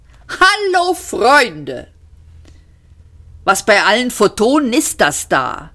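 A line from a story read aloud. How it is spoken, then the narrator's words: Called out. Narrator (German): rief Seyfert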